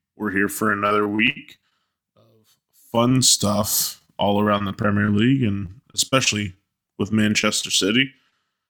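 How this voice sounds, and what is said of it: Groggy voice. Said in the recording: “You're mourning, so that's why you sound groggy”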